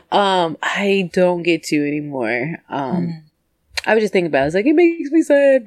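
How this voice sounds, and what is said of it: Raspy voice. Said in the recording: “my voice is all raspy.”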